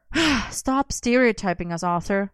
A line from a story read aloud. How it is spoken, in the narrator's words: Merlin sighed